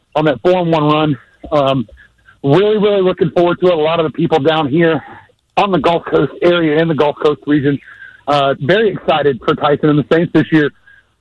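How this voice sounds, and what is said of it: Out of breath, breathless speech. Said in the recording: “Why are you so out of breath?”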